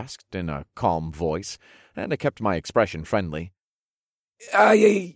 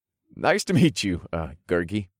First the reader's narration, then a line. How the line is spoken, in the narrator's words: I said, and I resisted the urge to laugh at the ridiculous name